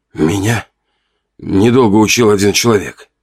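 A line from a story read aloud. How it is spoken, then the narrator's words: Breathed out. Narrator (Russian): выдохнул я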